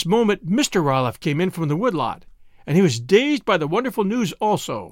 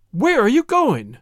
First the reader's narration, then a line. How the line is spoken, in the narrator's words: exclaimed her parents